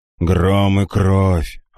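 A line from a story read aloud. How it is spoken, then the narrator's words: Grumbling to himself. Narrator (Russian): ворчал про себя Бастиан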